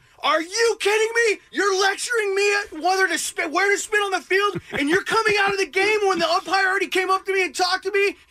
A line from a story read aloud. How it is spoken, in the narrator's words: yelling at him